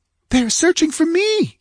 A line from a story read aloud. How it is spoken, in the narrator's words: she exclaimed